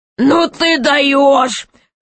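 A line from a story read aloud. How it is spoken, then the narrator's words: Laughing loudly. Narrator (Russian): хохотал король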